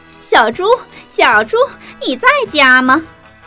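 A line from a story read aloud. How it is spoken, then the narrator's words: Calling out. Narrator (Chinese): 我在门口喊着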